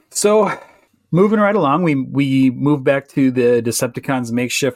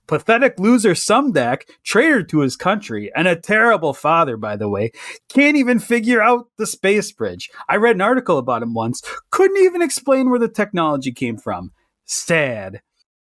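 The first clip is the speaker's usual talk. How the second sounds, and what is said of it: Donald Trump impression, tweet-style rant. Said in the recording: “in my Trumpiest tweet voice”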